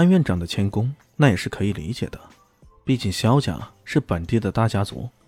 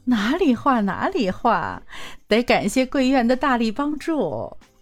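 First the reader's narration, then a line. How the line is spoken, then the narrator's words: Polite, smiling. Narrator (Chinese): 肖母笑了笑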